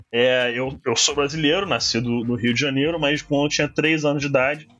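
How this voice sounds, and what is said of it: Portuguese with foreign, American-sounding accent. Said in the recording (Portuguese): “sotaque gringo”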